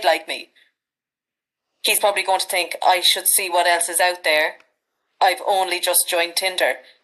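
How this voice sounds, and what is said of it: Irish Midlands accent. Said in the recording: “people are weak for the Irish accent over here. I'm actually enjoying your accent as well, because it's such like a Midlands sound”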